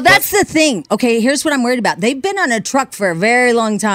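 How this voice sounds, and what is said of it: Usual voice. Nothing is said of it.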